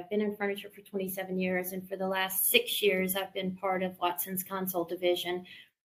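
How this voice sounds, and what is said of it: North Carolina accent. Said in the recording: “I am from North Carolina. If someone notices the accent's a little different than Washington State”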